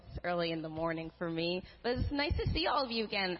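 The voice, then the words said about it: Strained, rough early-morning voice. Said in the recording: “Sorry about my voice.”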